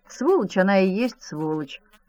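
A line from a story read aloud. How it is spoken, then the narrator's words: Mother's gloomy reply. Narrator (Russian): мрачно ответила мать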